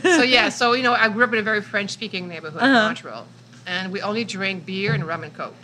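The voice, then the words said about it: Speaks with a noticeable accent. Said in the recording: “do you have an accent?”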